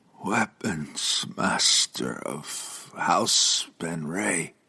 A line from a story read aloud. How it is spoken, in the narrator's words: he slurred, blood following every word from his battered mouth